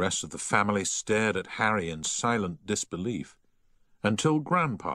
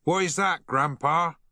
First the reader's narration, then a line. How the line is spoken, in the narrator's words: shouted Harry